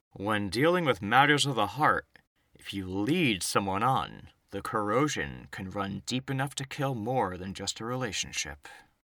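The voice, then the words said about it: Stony character voice. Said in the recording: “I'm going to do my stone voice.”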